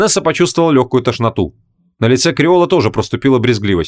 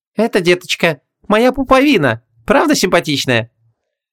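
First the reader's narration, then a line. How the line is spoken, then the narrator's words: Cheerful, playful. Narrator (Russian): весело подмигнул и сказал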